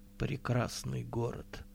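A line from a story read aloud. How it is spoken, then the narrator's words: Very quiet, barely audible. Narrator (Russian): сказала Вайнти так тихо, что остальные ничего не услышали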